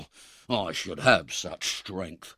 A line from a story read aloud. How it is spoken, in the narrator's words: muttered the robber